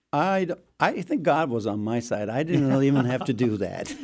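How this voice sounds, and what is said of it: Turkish accent in English. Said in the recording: “she fell for my accent ... a Turkish boy”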